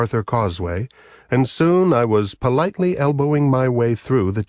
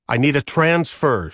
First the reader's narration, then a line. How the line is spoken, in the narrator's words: she snarled